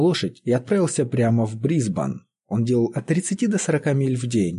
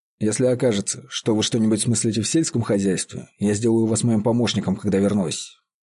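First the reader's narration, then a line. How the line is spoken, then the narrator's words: Plain. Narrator (Russian): сказал он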